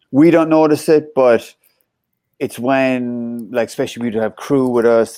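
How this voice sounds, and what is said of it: Thick regional non-American accent. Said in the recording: “comment on your accent ... We all kept our accents ... it becomes thicker again”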